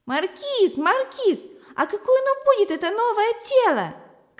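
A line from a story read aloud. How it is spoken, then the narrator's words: Shouting. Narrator (Russian): кричала Зося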